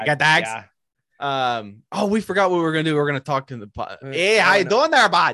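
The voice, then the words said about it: Put-on Upper Midwest accent. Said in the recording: “I think it's an Oregonian accent. I don't know what accent. ... it's like Minnesota and like Michigan and Canada.”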